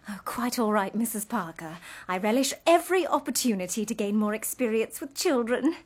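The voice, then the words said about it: English accent. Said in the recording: “I love your accent. Are you from England? ... Cambridge,”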